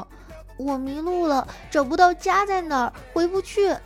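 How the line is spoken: Little girl crying. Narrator (Chinese): 有个小女孩哭着说

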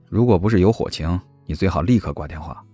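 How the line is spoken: Flat, indifferent. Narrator (Chinese): 他就淡淡的说道

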